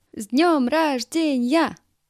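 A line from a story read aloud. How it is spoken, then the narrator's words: Group shouting. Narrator (Russian): все стояли и кричали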